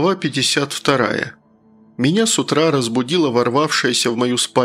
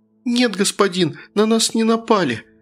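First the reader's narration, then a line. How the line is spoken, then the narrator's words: Sobbing speech. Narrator (Russian): сквозь всхлипы проговорила она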